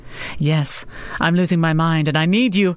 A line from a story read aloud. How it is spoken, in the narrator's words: laughed, comforted by the sound of his voice